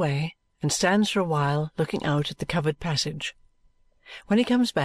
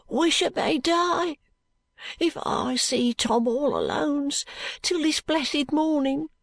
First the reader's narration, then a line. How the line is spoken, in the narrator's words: replies Jo hoarsely